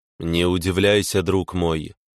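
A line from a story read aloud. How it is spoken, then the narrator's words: Calm. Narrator (Russian): спокойно сказал незнакомец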